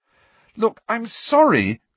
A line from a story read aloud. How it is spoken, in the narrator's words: cried Hermione